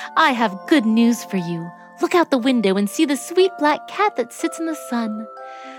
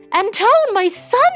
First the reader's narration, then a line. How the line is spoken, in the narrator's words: she screamed